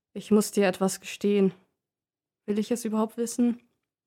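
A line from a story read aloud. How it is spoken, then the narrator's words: Sighing. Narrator (German): Er seufzt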